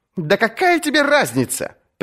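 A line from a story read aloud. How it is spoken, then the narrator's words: Sharp shout. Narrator (Russian): прикрикнул на него Дарион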